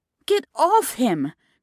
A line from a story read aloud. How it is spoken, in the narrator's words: cried Francesca